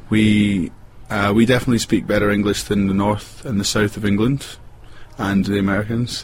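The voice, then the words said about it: Glasgow west coast Scottish accent. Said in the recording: “I come from the west coast of Scotland, from a city called Glasgow. We speak a west coast dialect there.”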